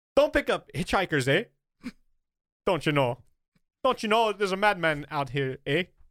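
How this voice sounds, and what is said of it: Put-on Canadian accent, drifting off. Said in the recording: “Now I'm going fucking a different accent here. ... I can't do a Canadian accent. ... Leprechaun-y.”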